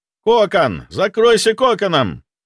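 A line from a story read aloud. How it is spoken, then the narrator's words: Shouting. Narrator (Russian): прокричал я ему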